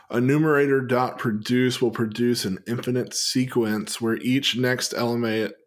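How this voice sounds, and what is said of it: Put-on Southern drawl. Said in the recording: “that's my southern drawl”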